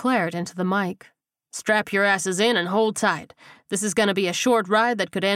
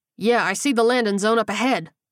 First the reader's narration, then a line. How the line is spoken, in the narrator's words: Paul snapped